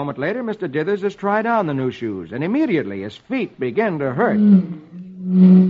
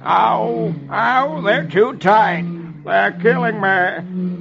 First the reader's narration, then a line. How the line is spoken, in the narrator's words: Dithers moans